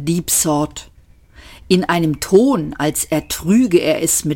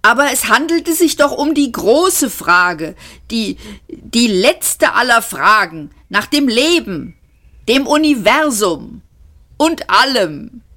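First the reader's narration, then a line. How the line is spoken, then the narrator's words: Whining. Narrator (German): jammerte Luung Kual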